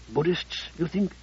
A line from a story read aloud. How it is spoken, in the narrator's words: Sable had no qualms about raising her voice